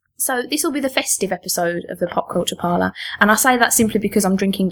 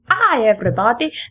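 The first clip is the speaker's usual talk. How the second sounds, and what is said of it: Poor impression of a cartoon doctor. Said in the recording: “That was a terrible impression... Master the accents.”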